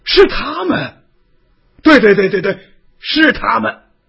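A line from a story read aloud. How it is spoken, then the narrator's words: Loudly. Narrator (Chinese): 光昌大声的说道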